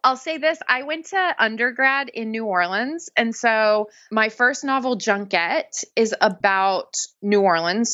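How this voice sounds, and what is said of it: Accent shaped by multiple places. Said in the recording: “I love her accent. You can tell that she's lived in multiple places.”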